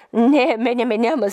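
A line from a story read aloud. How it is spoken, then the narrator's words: Laughing. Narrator (Bulgarian): засмя се той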